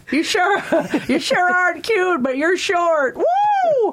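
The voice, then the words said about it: Imitates another person's voice. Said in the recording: “I just did it to get my impersonation in”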